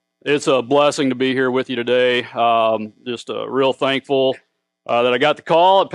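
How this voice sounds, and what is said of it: Heavy regional accent. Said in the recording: “get inoculated to the accent. Okay, it's going to get heavy.”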